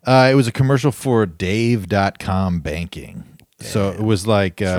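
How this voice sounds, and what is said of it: Usual voice. Nothing is said of it.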